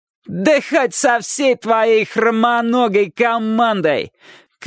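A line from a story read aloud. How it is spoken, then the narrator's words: Shouted reply. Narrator (Russian): крикнул тот в ответ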